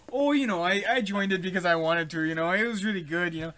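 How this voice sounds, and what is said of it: Put-on Midwestern Minnesotan accent. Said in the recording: “Midwestern kind of Minnesotan accent.”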